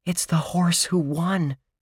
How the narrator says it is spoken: Josh breathed

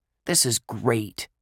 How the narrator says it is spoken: Dink grumbled

